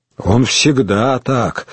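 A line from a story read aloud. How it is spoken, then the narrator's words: Undertone. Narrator (Russian): сказал вполголоса Губертик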